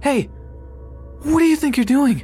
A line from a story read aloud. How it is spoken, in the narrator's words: another voice behind me shout